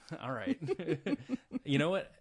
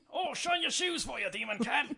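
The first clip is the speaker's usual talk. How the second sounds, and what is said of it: Poor put-on British accent. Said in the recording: “Normally I do a pretty good British accent, but that was not it ... I can't do a British accent while laughing”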